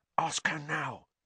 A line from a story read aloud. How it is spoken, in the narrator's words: Ron hissed at Harry